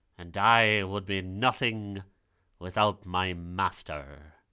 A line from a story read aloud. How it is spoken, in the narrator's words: growled the tiger in its pretentious cat voice